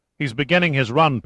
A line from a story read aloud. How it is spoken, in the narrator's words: Pitt snapped